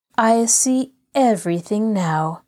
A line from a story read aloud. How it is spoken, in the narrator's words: Nancy said slowly